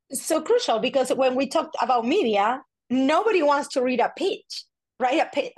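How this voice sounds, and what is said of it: Strong Spanish accent. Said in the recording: “my my accent is like off the hook today uh, because my mom is living here with me, so I'm speaking Spanish all day long right now.”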